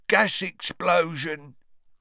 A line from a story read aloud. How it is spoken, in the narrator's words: grunted Ernie